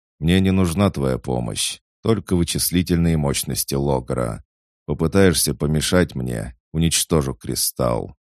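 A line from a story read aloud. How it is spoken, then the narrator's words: Grim promise. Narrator (Russian): мрачно пообещал Гонианец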